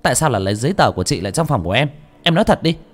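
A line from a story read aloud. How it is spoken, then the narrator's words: Harsh angry demand. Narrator (Vietnamese): Bà chủ làm gắt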